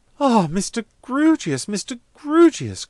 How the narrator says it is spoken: cried Miss Twinkleton

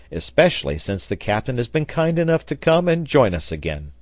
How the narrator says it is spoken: cried the sailor

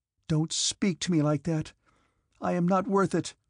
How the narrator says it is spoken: exclaimed Natasha

